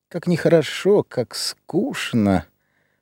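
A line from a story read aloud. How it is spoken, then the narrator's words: Weary sighing woman. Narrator (Russian): проговорила она, глубоко-глубоко вздохнув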